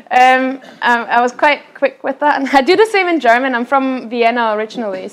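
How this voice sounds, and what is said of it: Austrian accent with Scottish touches. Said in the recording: “the Scottish bits of your accent”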